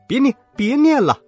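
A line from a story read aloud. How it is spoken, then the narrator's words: Crying out in pain. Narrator (Chinese): 两个一起喊疼，直叫道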